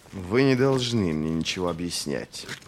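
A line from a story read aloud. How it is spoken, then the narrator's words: Hissed. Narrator (Russian): прошипел он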